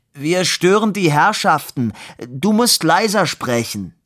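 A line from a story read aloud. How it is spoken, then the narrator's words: Bellowed. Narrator (German): brüllte Labude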